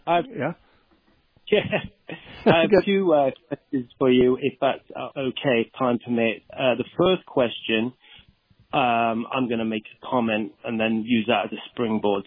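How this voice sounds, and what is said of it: Texas accent. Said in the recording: “that great Texas accent”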